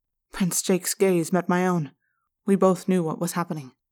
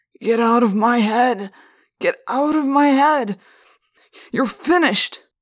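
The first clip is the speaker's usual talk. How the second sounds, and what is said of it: Slurred voice. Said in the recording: “in a slurred voice”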